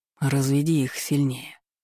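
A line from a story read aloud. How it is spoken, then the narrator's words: Insinuating whisper. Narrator (Russian): вкрадчиво прошептала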